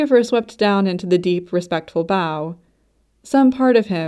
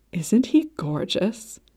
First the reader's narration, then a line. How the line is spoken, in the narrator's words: Lady Kuyulush stage whispered